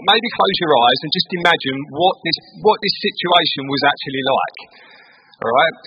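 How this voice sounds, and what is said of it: Essex English accent. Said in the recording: “in my Essex accent, I'm going to read it out”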